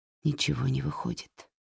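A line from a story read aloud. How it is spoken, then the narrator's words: Whisper. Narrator (Russian): прошептала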